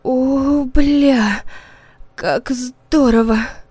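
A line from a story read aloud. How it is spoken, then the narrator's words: Hoarse. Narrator (Russian): хрипела мама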